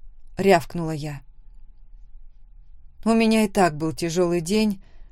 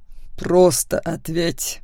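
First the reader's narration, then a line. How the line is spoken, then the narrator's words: Through gritted teeth. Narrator (Russian): вновь процедил Макс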